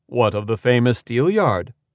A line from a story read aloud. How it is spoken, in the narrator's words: Lodegear asked